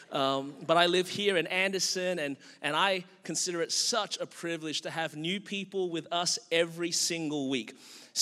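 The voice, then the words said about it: Australian accent. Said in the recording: “I was born and raised in Melbourne, Australia. That's the reason my voice is this way.”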